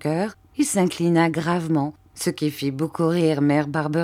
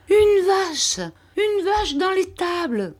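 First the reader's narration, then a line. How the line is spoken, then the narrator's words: Exclaiming. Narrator (French): s'écria Mère Barberin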